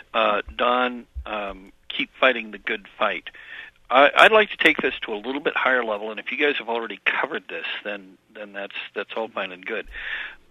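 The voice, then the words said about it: Slightly hoarse, croaky voice. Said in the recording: “I've got a little bit of a frog in my throat.”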